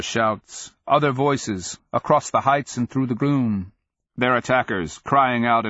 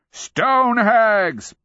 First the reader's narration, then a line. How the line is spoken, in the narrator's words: Pakwas booms, crying out the name like a curse